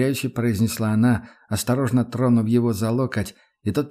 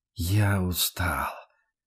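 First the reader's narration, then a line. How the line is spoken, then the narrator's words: Muffled, dull repetition. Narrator (Russian): глухо повторил Рудольф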